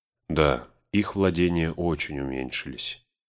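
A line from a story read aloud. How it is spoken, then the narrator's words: Wistful sigh. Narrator (Russian): Арагорн, словно вспомнив, о чем-то вздохнул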